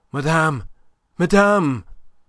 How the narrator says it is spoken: he panted out of breath

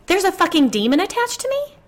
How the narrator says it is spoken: I exclaimed, horrified

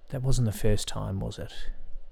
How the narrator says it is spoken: I asked quietly

